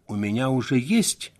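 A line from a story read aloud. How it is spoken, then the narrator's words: Calm. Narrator (Russian): спокойно ответила она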